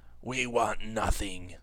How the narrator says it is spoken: he gasped, gritting his teeth

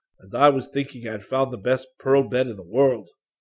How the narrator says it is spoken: Jack Poolady groaned

